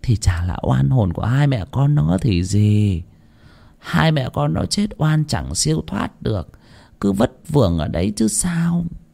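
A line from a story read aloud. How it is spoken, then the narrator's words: Sighing. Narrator (Vietnamese): Cô Nữ lại thở dài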